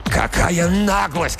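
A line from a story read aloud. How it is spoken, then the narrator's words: Struggling shout. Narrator (Russian): кричал, вырываясь, Макдаф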